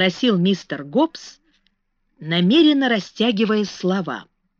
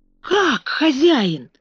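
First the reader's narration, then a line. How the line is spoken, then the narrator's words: Exclaiming. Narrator (Russian): воскликнул он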